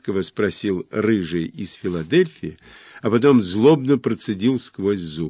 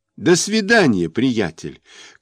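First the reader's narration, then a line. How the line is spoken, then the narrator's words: Shout from behind. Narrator (Russian): крикнул мне вслед рыжий из Филадельфии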